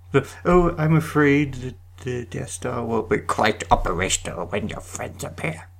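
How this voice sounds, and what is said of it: Impression of the Emperor. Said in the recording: “do an Emperor impression.”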